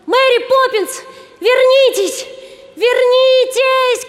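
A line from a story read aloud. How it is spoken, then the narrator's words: Children shouting. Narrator (Russian): кричали ребята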